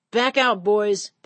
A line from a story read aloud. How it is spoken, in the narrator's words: would holler